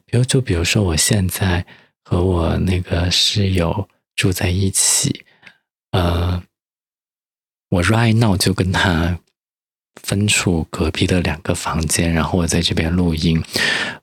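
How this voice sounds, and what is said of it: Quiet, lowered speaking voice. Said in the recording (Chinese): “小声说 ... 我这就是我音量放小的原因”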